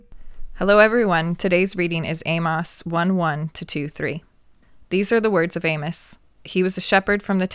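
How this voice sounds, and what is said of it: American accent. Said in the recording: “she sounds so funny, Dave. I love American accents.”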